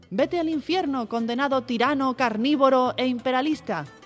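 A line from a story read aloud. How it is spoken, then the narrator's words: Piglets shouting. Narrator (Spanish): los cerditos gritaron a su vez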